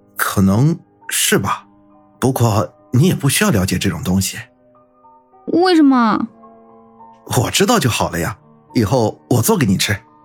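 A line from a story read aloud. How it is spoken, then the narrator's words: Soft, after a cough. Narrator (Chinese): 冰峰微微咳了咳，轻声道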